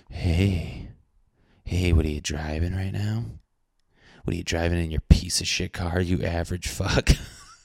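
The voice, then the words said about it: Soft ASMR-style voice. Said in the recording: “I got like ASMR voice right now”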